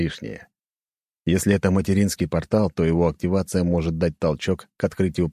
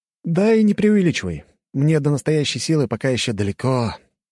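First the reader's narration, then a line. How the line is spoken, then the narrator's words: Wistful sigh. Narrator (Russian): вздохнул, вспомнив свою прошлую жизнь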